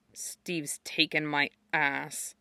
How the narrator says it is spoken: he muttered

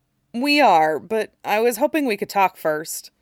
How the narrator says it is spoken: Dick said hesitantly

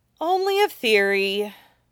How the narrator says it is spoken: Huaisang said with a dramatic sigh

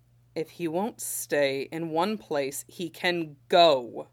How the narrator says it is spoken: Shen Qingqiu apparently snapped

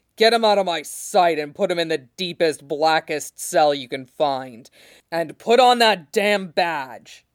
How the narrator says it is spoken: he added savagely over his shoulder

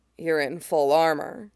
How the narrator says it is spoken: John murmurs

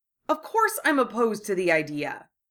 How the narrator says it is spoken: Harry said indignantly

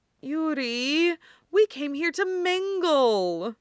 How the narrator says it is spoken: Victor whined in his ear

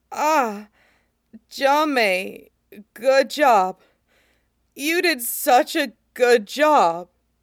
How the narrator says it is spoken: says hoarsely

